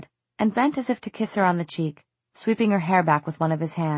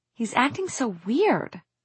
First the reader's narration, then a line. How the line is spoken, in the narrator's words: she exclaimed